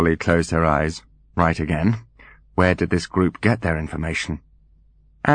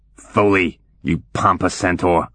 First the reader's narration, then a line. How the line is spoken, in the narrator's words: he barked into his mouthpiece